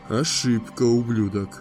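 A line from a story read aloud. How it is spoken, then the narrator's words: Quietly menacing. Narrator (Russian): угрожающе тихо проговорил Дава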